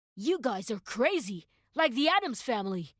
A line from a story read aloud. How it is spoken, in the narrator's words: the man exclaimed